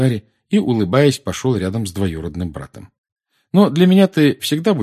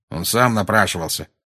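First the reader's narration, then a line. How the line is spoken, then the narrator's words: Grumble. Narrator (Russian): проворчал Дадли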